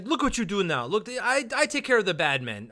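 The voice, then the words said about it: Attempted French accent. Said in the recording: “I was trying to do a French accent. I don't know what that was”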